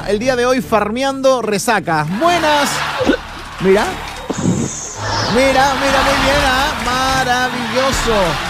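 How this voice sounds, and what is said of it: Shouting loudly. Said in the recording (Spanish): “No grites, no grites.”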